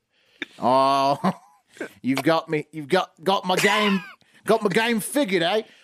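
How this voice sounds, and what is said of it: Put-on Australian accent. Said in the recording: “in an Australian accent”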